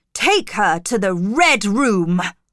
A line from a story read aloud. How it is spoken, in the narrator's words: Reed shouted